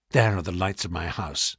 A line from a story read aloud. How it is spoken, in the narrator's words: murmured